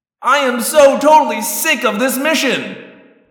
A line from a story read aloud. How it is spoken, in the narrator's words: I shouted